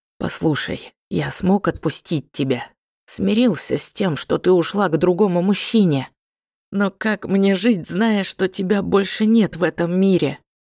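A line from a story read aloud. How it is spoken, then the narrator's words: Passionate whisper. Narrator (Russian): страстно зашептал ей на ухо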